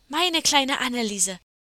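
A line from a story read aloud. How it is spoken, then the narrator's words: Call out. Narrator (German): rief das andere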